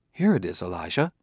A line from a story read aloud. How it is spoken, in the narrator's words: Daniil said calmly